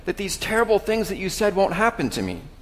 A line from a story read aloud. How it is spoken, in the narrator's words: Simon exclaimed